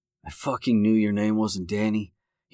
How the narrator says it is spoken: whispered

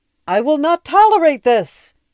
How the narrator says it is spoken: shouted the voice, now pitched noticeably higher in outrage

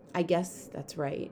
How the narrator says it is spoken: Claudia said quietly

